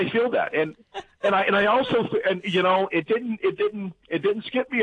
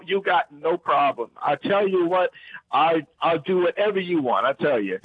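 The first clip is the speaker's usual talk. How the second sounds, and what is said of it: Heavy put-on Louisiana accent. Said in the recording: “speak in your heaviest Louisiana accent”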